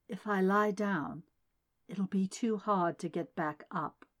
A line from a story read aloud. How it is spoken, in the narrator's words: murmured